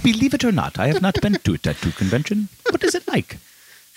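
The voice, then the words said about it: Angela Lansbury impression. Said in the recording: “It's very Angela Lansbury. ... your Angela Lansbury impression?”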